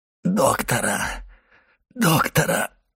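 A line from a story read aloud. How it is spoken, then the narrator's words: Moaning. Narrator (Russian): простонал Кадрус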